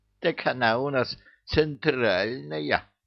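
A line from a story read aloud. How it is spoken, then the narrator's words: Snide explanation. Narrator (Russian): ехидно пояснила левая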